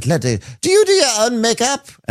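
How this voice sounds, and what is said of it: Put-on accent. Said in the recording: “let me do it with my accent.”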